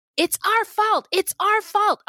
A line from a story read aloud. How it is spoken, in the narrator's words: Winta screaming and saying